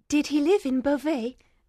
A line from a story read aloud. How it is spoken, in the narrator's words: Miss Manette asked eagerly